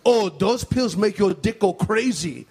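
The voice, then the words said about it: Imitates another person's accented voice. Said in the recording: “a racist impression ... I'm sounding exactly like the guy, the way the guy sounded.”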